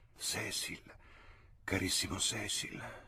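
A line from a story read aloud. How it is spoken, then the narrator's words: Whispered tenderly. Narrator (Italian): sussurrò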